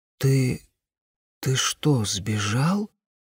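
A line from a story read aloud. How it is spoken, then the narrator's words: Quiet question. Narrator (Russian): спросила тихо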